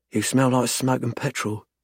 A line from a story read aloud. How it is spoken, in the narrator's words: she murmurs